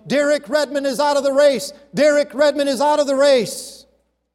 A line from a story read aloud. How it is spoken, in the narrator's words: The broadcasters were yelling